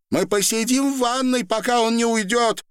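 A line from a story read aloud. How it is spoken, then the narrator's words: Shouted into ear. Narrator (Russian): прокричала женщина в ухо старухи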